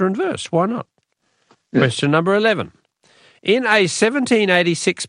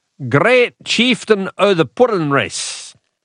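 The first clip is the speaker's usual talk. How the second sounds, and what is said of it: Poor put-on Scottish accent. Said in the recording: “my horrible Scottish accent”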